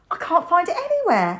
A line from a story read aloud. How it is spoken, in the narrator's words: Alan shouted